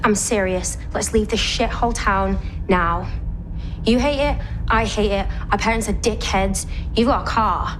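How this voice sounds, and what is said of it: British English accent. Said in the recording (German): “dieser britische Akzent auch von beiden”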